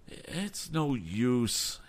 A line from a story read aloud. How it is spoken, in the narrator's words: moaned